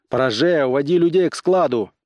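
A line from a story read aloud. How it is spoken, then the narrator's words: Loud commanding shout. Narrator (Russian): приказал Корлис, потом громко крикнул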